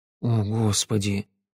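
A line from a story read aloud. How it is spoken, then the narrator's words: Mumbled. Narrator (Russian): пробормотал я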